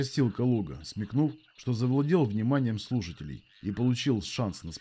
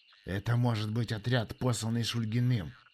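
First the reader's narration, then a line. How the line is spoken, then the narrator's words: Low voice. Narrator (Russian): негромко сказал командир дезертиров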